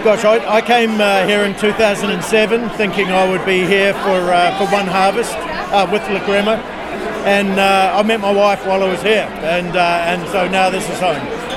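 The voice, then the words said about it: New Zealand English accent. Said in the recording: “I'm hearing an accent, so I'm going to guess either Australia or New Zealand. ... I'm from New Zealand.”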